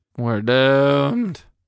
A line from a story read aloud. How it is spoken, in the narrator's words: I moaned